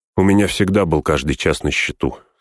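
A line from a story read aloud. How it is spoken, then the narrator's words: Plain. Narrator (Russian): сказал Арагорн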